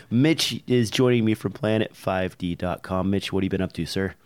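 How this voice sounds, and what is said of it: Sick, congested voice. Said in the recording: “my voice is a little bit out... my nose is red. I've been blowing my nose all night. I am a little bit sick”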